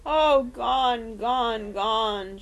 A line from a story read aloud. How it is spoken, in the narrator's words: she moaned